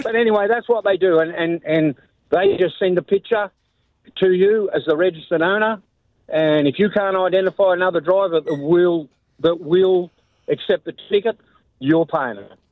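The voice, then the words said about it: Heavy non-American accent. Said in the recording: “My accent is bad enough as it is ... I think it's the sexiest accent out there ... can you speak in English?”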